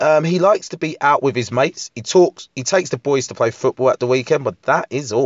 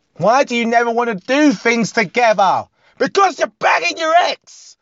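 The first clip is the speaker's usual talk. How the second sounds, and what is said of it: Shouting angrily. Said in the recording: “Why are you shouting?”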